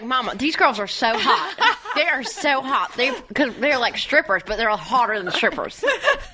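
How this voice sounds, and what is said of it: Imitated country bumpkin accent. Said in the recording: “what a country bumpkin she was ... You have a good Miley Cyrus accent.”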